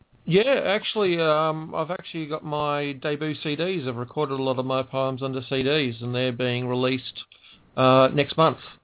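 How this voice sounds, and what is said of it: Australian accent. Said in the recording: “the Aussie accent”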